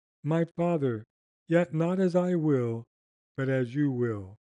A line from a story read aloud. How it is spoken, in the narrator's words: in the depths of his agony, when his sweat was, as it were, great drops of blood, at last cried out